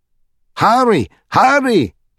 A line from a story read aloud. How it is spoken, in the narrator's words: cried the king